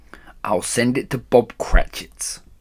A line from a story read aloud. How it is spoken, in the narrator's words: whispered, rubbing his hands and splitting with a laugh